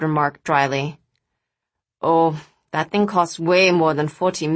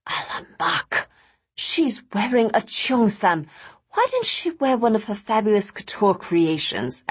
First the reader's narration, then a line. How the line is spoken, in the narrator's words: Araminta sighed